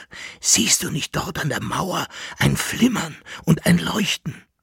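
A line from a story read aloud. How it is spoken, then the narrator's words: Whispered. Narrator (German): flüsterte Jäckele Narr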